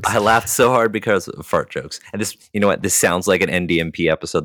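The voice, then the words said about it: Slightly altered voice, dry cough. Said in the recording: “I hurt my throat laughing so hard. And since then, I've had this dry cough ... my voice sounds a little bit different right now”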